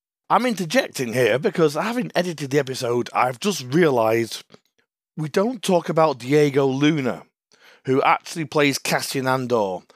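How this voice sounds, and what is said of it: Croaky hoarse voice. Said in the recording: “Forgive my voice, it's even croakier than when I did the episode.”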